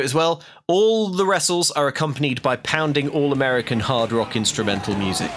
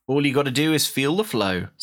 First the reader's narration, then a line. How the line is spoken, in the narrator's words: says Andrew Lawrence